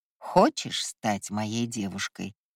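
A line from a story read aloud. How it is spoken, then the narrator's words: Drawled. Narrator (Russian): протянул Ива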